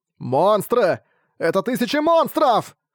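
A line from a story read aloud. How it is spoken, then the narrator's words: Trembling shout. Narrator (Russian): закричал матрос дрожащим голосом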